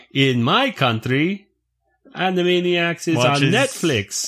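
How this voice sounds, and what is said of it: Put-on Russian accent. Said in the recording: “That's my Russian accent, by the way. Pretty good.”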